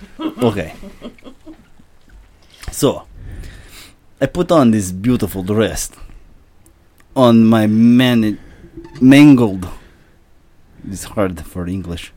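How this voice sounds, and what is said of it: Put-on Russian accent. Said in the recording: “Russian, take it away ... Nuclear physicist Viktor Volkanikov ... by a Russian man. Take it away, Viktor.”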